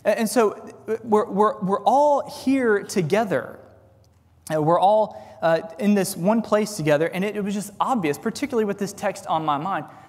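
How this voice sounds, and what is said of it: Distinct Texan accent. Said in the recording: “I just love your accent ... I had a distinctively Texan accent, but apparently I do”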